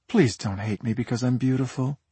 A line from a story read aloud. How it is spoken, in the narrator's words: she purred